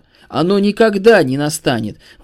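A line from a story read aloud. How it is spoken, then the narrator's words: Sudden terrible shout. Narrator (Russian): вдруг закричал Пилат таким страшным голосом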